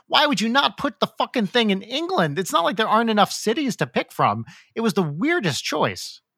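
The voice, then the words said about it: Flabbergasted, baffled exasperated delivery. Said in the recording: “that's the most like flabbergasted I think I've heard your voice go”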